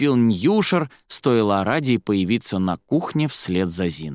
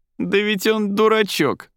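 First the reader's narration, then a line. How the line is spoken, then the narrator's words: Laughing. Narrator (Russian): смеялся Ньюшер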